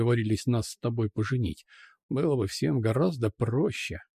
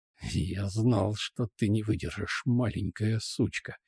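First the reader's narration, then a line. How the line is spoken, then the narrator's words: Hissing in face. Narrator (Russian): Прошипел мне в лицо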